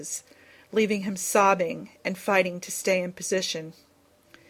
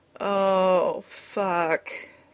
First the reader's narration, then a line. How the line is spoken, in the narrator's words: moaned